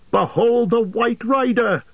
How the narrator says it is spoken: cried Aragorn

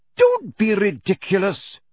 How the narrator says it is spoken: she snapped

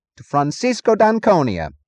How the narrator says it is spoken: he said

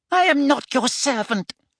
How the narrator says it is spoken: he squeaked

